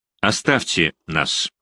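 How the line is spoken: Plain. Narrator (Russian): сказал он

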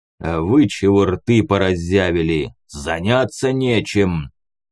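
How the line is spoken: Growl. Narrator (Russian): Рыкнул он

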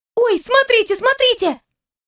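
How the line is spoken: Sudden shriek. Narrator (Russian): внезапно взвизгнула Алина

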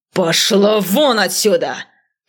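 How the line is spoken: Growl. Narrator (Russian): прорычал он

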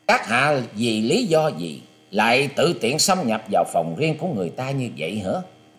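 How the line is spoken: Cold young man's voice. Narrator (Vietnamese): Chàng thiếu niên áo trắng cất giọng lạnh lùng nói

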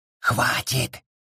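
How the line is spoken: Whisper. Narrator (Russian): прошептал

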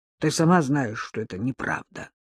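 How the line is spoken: Grumbled with forced smile. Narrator (Russian): Яцек … заставив себя улыбнуться, буркнул

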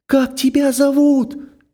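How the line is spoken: Sudden call after. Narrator (Russian): спохватившись, крикнула она ему вслед

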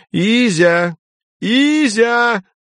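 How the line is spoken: Shrill female shout. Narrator (Russian): пронзительно прокричал женский голос в колодце

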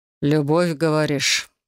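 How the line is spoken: Growled, barely restrained. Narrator (Russian): прорычал, с трудом сдерживая оборот

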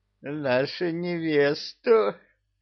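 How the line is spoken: Drunken giggle. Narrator (Russian): Пьяно хихикнул Кощей

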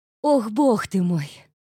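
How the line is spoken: Sighing. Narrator (Russian): вздохнула

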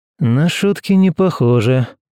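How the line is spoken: Grumbling mutter. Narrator (Russian): буркнул Герман

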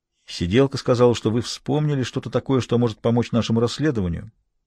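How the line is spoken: Neutral tone. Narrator (Russian): сказал самым нейтральным тоном

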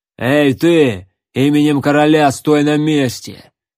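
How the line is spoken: Rough, curt. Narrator (Russian): грубо бросил лысый бугай

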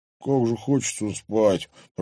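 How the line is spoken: Groan. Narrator (Russian): простонал

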